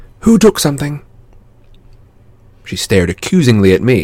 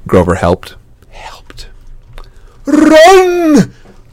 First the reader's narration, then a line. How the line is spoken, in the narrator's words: Grover yelped